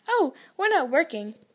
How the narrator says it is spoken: Harry told him brightly

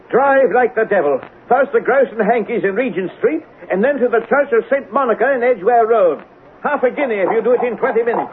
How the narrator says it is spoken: shouted

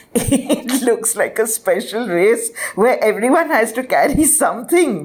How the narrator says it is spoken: the boys laughed

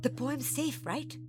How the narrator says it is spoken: Monkey whispered

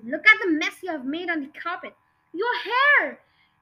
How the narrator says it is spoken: The mother was shrieking

